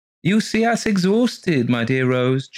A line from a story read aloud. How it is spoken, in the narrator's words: chirped Mr